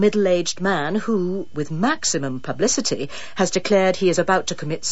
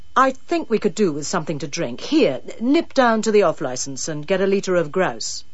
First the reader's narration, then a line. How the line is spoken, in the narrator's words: said Rory firmly